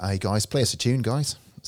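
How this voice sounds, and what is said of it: Put-on Australian accent, not bad. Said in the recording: “Is that an Australian accent? ... It's actually not bad.”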